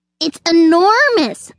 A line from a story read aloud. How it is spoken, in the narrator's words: snapped the squirrel